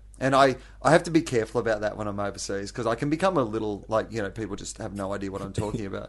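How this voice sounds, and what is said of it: Strong Australian accent. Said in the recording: “you have quite an Aussie accent anyway”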